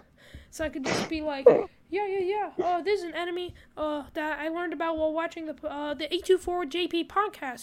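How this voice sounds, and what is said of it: High cartoon Mickey Mouse voice. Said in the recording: “why am I doing a Mickey? ... I could do a Mickey Mouse voice.”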